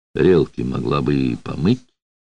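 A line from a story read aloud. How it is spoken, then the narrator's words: Creaky voice. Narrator (Russian): проскрипел Людвиг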